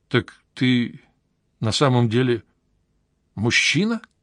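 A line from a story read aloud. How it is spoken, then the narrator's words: Forced out. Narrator (Russian): выдавил я из себя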